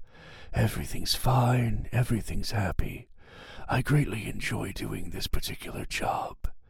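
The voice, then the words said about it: Whispering. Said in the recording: “Me whispering inside of my booth ... as I was whispering”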